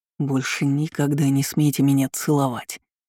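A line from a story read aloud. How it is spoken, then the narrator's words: Menacing hiss. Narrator (Russian): угрожающе прошипел он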